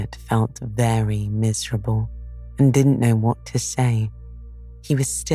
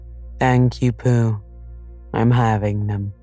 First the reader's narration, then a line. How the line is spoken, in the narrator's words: said Eeyore gloomily